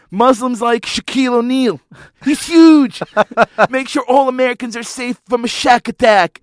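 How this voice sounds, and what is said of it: Imitates another person's voice. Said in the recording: “my Donald Trump impersonation ... sound like Cartman”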